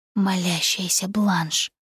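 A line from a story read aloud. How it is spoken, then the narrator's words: Whisper. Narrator (Russian): прошептал Джордж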